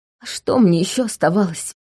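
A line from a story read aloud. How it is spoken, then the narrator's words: Thin sobbing. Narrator (Russian): Чарльз опять тоненько всхлипнул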